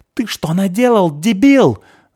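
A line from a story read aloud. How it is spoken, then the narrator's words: Dwarf shrieking. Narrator (Russian): завизжал карлик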